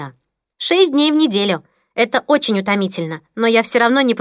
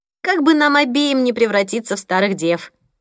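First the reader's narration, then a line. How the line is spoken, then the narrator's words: Sighing. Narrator (Russian): вздохнула Дейзи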